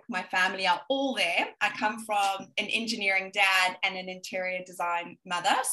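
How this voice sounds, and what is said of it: South African accent, slight Australian twang. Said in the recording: “as you can hear, I most probably have a little bit of Australian twang here and there, but I'm South African and I'm originally from Johannesburg”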